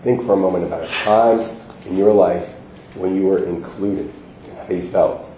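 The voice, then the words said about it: Hoarse, failing, deeper voice. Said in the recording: “I'm sort of losing my voice ... I sound a bit more manly”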